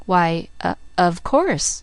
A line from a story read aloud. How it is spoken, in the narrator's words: faltered Miss Polly